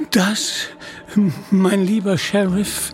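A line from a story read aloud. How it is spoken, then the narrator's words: Stammering. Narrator (German): stammelte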